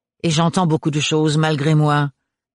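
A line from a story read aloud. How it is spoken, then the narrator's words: Sneering, conspiratorial gossip. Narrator (French): ricana la rapporteuse d'un air de connivence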